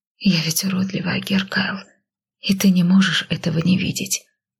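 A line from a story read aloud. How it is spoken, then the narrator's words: Insecure, ashamed whisper. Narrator (Russian): прошептала я, сгрызаемая своей неуверенностью и стыдом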